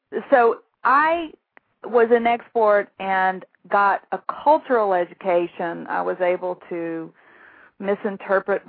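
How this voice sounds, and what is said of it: Southern American accent. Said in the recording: “I thought I sounded like a hick ... I have a Southern accent”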